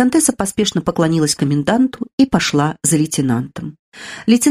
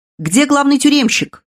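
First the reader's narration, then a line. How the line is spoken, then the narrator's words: Shouting. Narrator (Russian): закричал лейтенант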